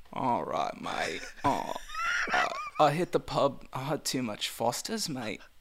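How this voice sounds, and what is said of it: Put-on Australian accent. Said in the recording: “Can you pretend you have a cold in an Australian accent?”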